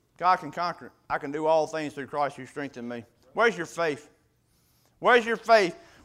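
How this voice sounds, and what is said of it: Southern American redneck accent. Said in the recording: “I'm in a redneck dialect to it”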